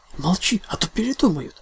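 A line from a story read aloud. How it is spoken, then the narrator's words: Loud stage whisper. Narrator (Russian): на всю комнату прошептала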